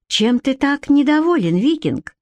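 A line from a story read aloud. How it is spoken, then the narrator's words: Feigned innocent tone. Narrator (Russian): деланно невинным тоном осведомилась она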